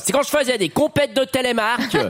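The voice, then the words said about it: Put-on regional French accent. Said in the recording (French): “Essayons l'accent ... C'est mieux.”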